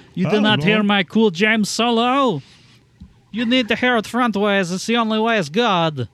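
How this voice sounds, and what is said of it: Vague, ambiguous European put-on accent. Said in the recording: “I don't know what accent I'm doing, but it definitely is not Scandinavian anymore ... it's like vaguely European, sure ... Yeah, it's ambiguous enough.”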